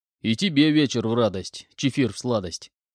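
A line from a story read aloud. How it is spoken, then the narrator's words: Chuckling reply. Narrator (Russian): Хохотнув, ответил Буран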